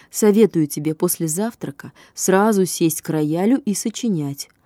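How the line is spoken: Plain. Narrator (Russian): сказала Маня

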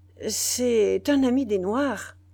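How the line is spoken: Citizen stammering. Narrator (French): balbutia le citoyen

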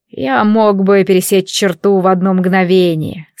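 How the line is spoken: Calm. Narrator (Russian): спокойно сообщил он

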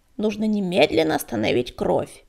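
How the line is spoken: Creaky voice. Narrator (Russian): проскрипела Щербатая

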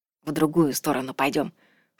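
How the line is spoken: Whisper. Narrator (Russian): шепнул он

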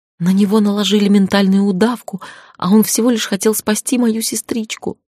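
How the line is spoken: Little girl sobbing. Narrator (Russian): всхлипнула девчушка

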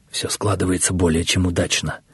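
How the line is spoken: Quiet speech. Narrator (Russian): тихо говорил один из них

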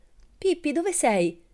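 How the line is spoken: Worried exclamation. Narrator (Italian): esclamò preoccupato

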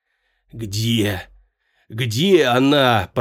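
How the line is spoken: Hoarse croak through cramped lips. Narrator (Russian): прохрипел Фес, как только смог разлепить сведенные судорогой губы

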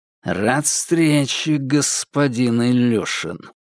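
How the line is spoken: Through gritted teeth. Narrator (Russian): процедил Никита

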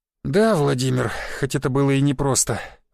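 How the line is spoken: Sigh. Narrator (Russian): вздохнул Сергеевич

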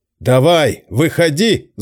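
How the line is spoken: Yelling. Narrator (Russian): заорал он

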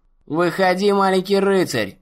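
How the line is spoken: Loud, sonorous singing. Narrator (Russian): пропел принц громким, звучным голосом

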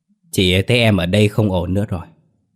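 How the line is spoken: Smiling. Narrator (Vietnamese): Lành mỉm cười và nói

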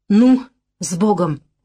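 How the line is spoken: Breathy exhale. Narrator (Russian): Выдохнул он

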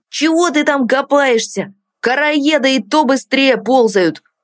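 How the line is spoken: Annoyed distant shout. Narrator (Russian): Недовольно крикнул ему Тин из коридора

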